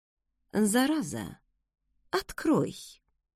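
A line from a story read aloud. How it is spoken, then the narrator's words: Insinuating demand. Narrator (Russian): вкрадчиво потребовала мама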